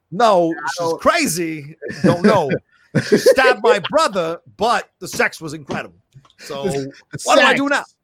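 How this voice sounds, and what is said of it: Christopher Walken impression. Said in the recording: “You do a great Christopher Walken, bro.”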